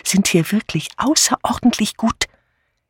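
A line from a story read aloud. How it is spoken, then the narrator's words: Conspiratorial whisper. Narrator (German): vertraute Miss Banner mit konspirativem Flüstern Miss Marple an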